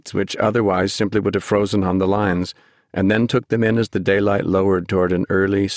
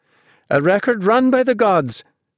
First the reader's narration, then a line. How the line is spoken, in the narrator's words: she cried